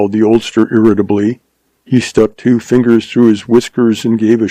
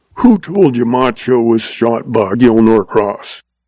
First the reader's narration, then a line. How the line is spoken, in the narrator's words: snapped old Goodnight